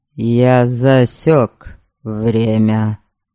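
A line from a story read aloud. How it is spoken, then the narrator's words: Cold. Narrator (Russian): холодно проговорил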